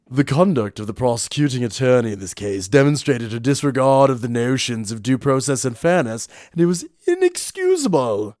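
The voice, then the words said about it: Put-on British accent. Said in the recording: “Oh, what accent should I do for the court? ... Oh, British, of course.”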